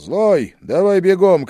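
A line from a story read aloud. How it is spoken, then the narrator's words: Shout. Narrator (Russian): крикнул я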